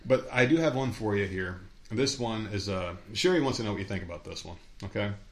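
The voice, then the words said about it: Hoarse, failing voice. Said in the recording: “I'm fucking losing my voice.”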